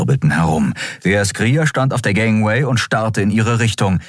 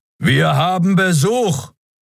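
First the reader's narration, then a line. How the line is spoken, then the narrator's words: Interrupting roar. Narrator (German): Brüllen schnitt ihr das Wort ab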